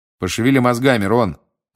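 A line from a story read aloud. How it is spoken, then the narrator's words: Plain. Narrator (Russian): ответил Билл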